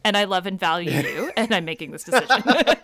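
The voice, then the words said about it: Sarcastic tone. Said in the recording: “kind of being sarcastic”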